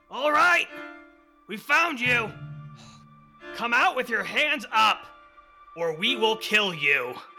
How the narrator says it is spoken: a voice from outside yell

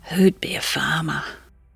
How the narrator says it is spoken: whispered

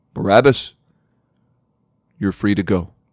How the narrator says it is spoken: the soldier gruffly told him

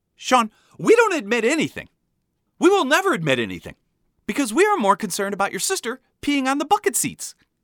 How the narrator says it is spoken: my mom suddenly screaming back at me

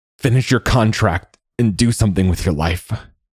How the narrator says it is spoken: Carlos wheezed

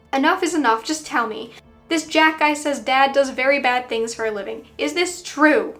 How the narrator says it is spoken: shouted

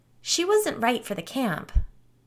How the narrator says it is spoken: Gretchen answered brightly

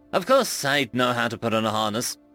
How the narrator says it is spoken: she said, scoffing

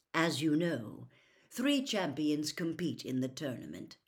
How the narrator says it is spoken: Dumbledore went on calmly

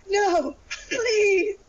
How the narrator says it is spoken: I begged

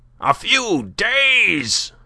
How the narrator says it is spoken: cried Binet

